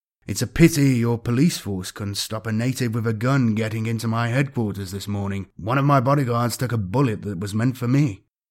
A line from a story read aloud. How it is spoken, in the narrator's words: Balbrev said grimly